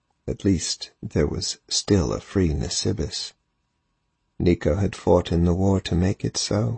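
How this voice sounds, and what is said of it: Usual voice. Nothing is said of it.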